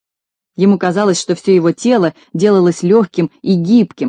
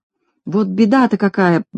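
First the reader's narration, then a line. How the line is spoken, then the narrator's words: Muttering to himself. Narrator (Russian): бормотал про себя Знайка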